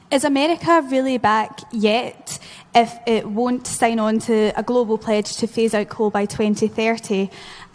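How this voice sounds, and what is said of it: Heavy accent. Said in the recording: “the accent was heavy”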